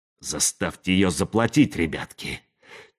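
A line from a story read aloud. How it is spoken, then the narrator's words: Quiet command. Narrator (Russian): тихо приказал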